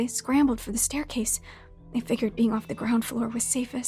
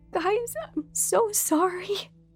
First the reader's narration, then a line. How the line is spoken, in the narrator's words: Sherry said through choked sobs